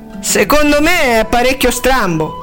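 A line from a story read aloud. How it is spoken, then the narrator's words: Repeated exclamation. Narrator (Italian): esclamò di nuovo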